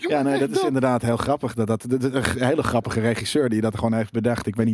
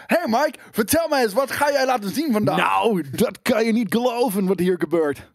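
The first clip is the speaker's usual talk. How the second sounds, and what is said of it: Dutch with put-on American accent. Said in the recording (Dutch): “Nederlands dubben, maar met een Amerikaans accent”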